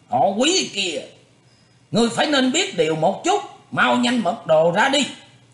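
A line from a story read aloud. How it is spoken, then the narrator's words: Deep loud shout. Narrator (Vietnamese): Sài Lỗi trầm giọng quát lớn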